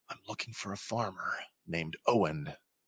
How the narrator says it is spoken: she hisses

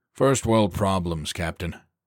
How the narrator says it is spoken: Copeland replied with a chuckle

